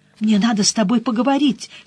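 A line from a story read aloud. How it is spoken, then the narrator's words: Said hurriedly. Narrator (Russian): сказал я торопливо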